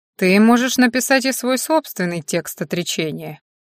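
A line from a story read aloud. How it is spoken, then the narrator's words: Even, level voice. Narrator (Russian): ровным голосом предложил Финер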